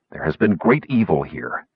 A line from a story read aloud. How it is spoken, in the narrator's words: Sturm hissed